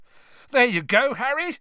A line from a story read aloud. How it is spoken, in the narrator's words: Ron shouted over the noise